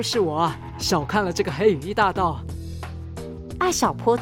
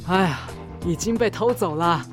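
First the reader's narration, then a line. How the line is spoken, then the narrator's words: Sighing. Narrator (Chinese): 冯先生叹了口气说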